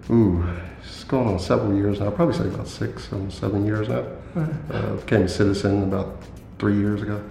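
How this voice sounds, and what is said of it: American accent. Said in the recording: “tall black man with an accent from the US. The states, yeah.”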